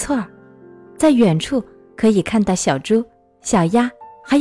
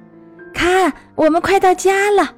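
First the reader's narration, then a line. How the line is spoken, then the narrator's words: Loud shout. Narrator (Chinese): 弗洛格大叫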